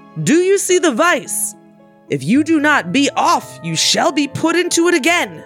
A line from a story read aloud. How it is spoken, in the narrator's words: cried